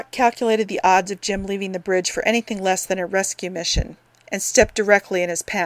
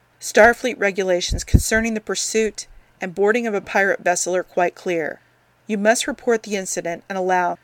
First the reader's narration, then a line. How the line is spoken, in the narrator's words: said, firmly but quietly